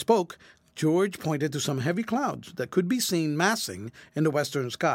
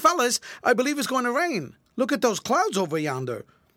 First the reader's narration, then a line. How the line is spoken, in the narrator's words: George said quickly